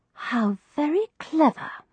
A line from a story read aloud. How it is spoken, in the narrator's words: I murmured, my respect for Florence Nightingale's intelligence increasing by the moment